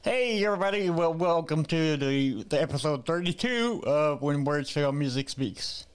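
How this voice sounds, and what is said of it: Voice like a Muppet character. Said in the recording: “I know my voice sounds like Scooter from the Muppets”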